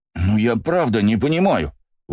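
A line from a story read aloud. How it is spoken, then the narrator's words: Exclaimed. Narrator (Russian): воскликнул Бельфигор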